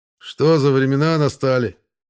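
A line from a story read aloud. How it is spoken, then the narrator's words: Sighed. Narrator (Russian): вздохнул Троицкий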